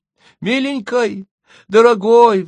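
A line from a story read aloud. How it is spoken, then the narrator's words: Bride pleading. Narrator (Russian): взмолилась невеста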